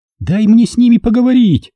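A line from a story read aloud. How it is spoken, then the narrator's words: Distant faint shout. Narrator (Russian): крикнула Джульетта из невообразимой дали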